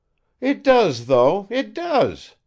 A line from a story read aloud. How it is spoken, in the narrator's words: exclaimed Evdoksya